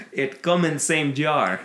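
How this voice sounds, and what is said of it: Put-on Russian accent. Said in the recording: “My Russian accent stems exclusively from Iron Man 2 and Mickey Rourke.”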